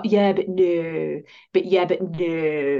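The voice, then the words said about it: Good impression of Vicky Pollard. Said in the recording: “If you know Vicky Pollard, that is a good impression”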